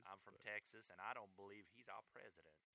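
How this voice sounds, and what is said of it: Put-on Texas Southern US accent. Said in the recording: “that's my Texas accent. ... That's more Eastern, South, whatever”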